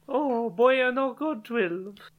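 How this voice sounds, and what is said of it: Badly done put-on accent. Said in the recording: “What was that accent? ... It sounded slightly culturally insensitive. ... trying to mimic the voice you just did and doing it badly.”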